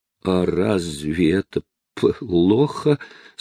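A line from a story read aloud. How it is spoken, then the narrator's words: Stuttering, teeth chattering fearfully. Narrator (Russian): спросила она, заикаясь и все еще стуча зубами от страха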